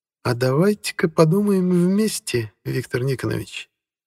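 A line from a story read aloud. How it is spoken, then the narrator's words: Purring. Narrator (Russian): промурлыкала Алла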